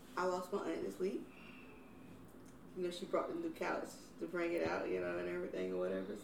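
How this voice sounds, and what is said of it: Hoarse voice, cutting in and out. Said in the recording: “my voice is in and out, so I'm a little hoarse”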